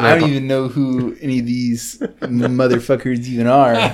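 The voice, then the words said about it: Imitates another person's voice. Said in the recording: “talk in that voice ... your impression of Stevie is way too close to your impression of Scott”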